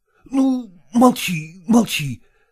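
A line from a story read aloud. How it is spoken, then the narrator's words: Exclaiming. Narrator (Russian): воскликнул он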